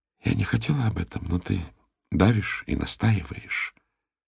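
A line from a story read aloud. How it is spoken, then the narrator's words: Very quiet. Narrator (Russian): произносит она совсем тихо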